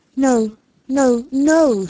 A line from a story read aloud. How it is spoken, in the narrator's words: she cried, hiding her face